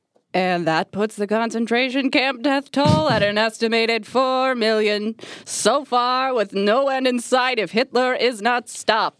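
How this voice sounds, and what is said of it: Radio announcer voice. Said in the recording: “Radio voice.”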